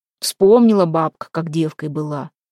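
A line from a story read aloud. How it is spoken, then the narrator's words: Skeptical grumble. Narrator (Russian): проворчал Демка, не склонный верить таким воспоминаниям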